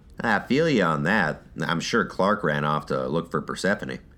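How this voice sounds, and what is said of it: Grating southern drawl. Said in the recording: “that grating southern drawl”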